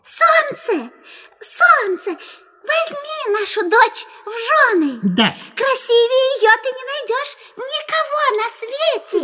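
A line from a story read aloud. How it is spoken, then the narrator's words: Tender squeak. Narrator (Russian): мышь-мать пропищала нежным голоском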